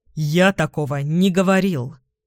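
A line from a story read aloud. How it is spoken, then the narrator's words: Irritated rebuke. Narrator (Russian): раздраженно осаживаю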